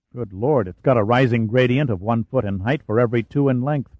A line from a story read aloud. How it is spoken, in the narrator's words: Pitt said softly